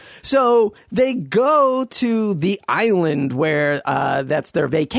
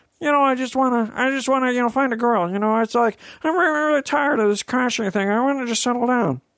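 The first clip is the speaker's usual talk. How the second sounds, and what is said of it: Imitates another person's voice. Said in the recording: “my Owen Wilson impression, in case you were wondering. Not Kermit the Frog. Very similar.”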